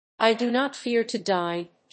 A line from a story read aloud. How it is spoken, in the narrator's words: she said